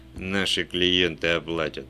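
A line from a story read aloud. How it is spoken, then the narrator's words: Calm remark. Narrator (Russian): спокойно заметил Вульф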